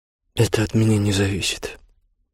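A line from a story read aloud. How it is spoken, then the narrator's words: Sad. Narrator (Russian): печально ответил обер-лейтенант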